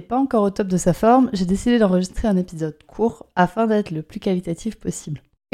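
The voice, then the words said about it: Hoarse, slightly strange voice. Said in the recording (French): “je suis enrouée depuis un moment, donc ma voix risque d'être un petit peu bizarre pour cet épisode”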